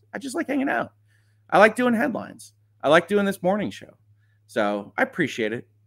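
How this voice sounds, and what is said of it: Rough, worn-out, low-energy voice. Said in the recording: “my voice is a wreck. I know my energy level isn't where it usually is”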